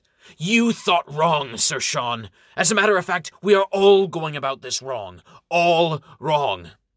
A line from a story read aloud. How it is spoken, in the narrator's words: Struggling to control his anger, Amherst snaps